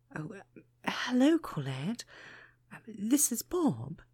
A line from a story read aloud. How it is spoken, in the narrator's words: he stuttered nervously